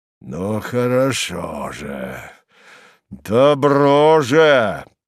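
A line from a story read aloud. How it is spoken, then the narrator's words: Threatening voice. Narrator (Russian): промолвил Харлов угрожающим голосом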